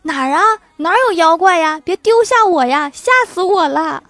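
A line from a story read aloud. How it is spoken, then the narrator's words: Frightened yelling while running. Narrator (Chinese): 狐狸也嗷一声 边跑边叫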